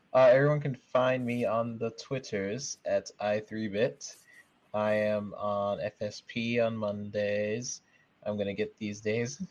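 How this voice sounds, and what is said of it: Fancy posh put-on accent. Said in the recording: “fancy accent ... here he is with an accent”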